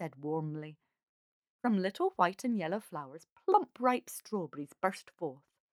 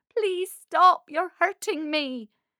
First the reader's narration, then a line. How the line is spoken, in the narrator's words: she cried in pain